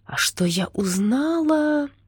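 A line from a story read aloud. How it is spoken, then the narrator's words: Triumphant drawl. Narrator (Russian): торжествующе протянула Надя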